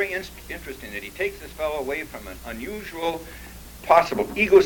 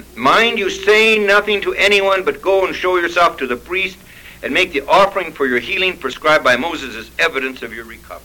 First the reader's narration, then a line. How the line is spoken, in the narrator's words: sternly ordered him